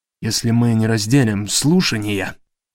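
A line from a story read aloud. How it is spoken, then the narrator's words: Muttering to himself. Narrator (Russian): пробормотал себе под нос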